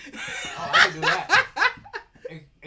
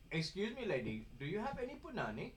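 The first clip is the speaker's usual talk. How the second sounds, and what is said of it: Put-on Indian accent. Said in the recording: “picture in the Indian accent that I'm trying to mimic ... You got the eek in the voice.”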